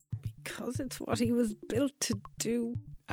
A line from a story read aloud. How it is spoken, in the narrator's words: Anya muttered under her breath